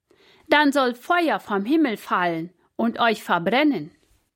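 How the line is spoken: Calling out. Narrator (German): rief er den Hauptmann zu

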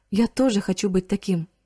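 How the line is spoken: Plain. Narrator (Russian): сказал Риц

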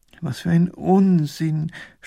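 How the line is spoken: Groaning. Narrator (German): stöhnt Professor Pfiffikus

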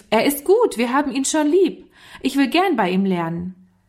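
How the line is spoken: Child calling out. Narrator (German): Walter rief

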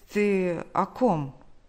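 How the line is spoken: Stammering question. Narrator (Russian): заикаясь, спросил

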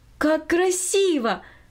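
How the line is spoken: Exclaiming. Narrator (Russian): воскликнула Минори

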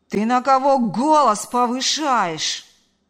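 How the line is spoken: Outraged yelling. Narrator (Russian): заорал он в ответ, возмущенный до глубины души

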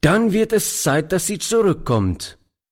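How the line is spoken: Old man calling. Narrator (German): rief der Alte

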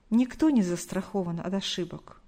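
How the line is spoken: Sighing. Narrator (Russian): вздохнула Галина Николаевна

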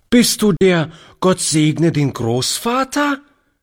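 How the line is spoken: Lively child's call. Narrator (German): rief die Kleine lebhaft

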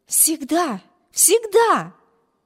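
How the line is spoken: Fervent exclamation. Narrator (Russian): горячо воскликнула сестра

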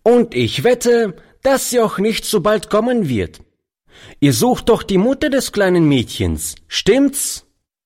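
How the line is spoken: Boy calling out. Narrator (German): rief der Junge dem alten Mann zu

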